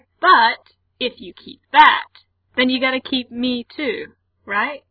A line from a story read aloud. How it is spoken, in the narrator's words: Frank says cheerfully